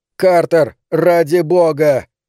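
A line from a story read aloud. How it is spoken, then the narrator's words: Yelled. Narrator (Russian): я заорал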